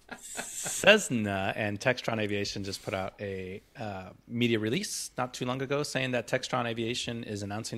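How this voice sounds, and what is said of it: American accent. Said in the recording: “That's a very good American accent you have there ... Really believable.”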